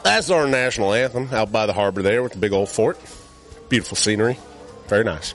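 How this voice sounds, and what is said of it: Speaks with a noticeable accent. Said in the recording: “I like the accent.”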